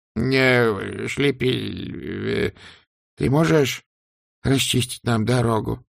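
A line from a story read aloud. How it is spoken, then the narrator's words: Trembling voice. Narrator (Russian): дрожащим голосом спросил Сдумс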